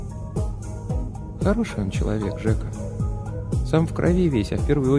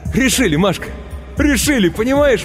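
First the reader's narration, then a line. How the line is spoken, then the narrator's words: Ecstatic shouting. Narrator (Russian): восторженно кричал он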